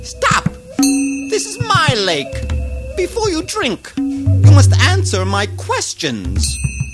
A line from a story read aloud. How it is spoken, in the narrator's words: the ogre called out